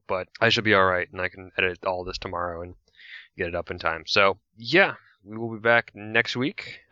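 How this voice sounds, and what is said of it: Voice strained and going hoarse. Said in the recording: “my voice is starting to go”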